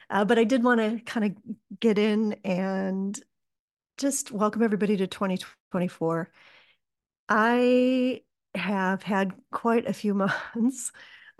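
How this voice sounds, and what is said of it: Slightly scratchy voice. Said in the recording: “my voice is a little bit scratchy today”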